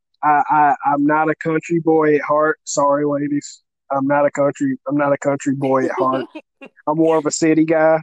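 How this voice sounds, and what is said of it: Southern country accent. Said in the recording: “Even with the country fried accent and everything ... even though I have a country fried accent”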